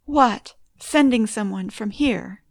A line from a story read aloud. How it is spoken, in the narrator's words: cried